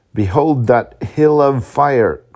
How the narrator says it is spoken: cried he

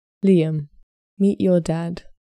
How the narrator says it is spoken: said Rachel kindly

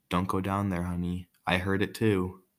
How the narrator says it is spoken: a whisper from the closet saying

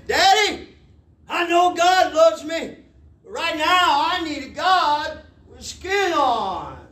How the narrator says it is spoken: the boy called out back to his daddy down the hallway

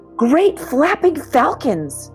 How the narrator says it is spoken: Milton cried

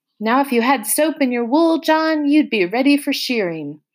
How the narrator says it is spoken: Joe shouted

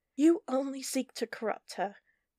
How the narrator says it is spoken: Natasha said through gritted teeth

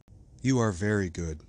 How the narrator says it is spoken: sighed the other

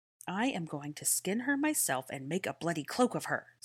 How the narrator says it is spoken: snarled Draco through the mud

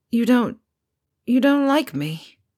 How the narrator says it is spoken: Harry slurred

